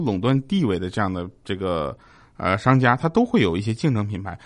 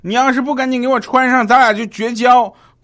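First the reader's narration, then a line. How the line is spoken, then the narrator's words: Shouting. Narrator (Chinese): 我女朋友就冲她大喊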